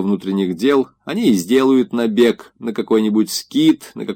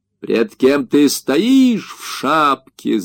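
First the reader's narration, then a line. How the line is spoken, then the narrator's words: Furious panting shout. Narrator (Russian): закричал Павел, отдуваясь и со всеми признаками бешеной ярости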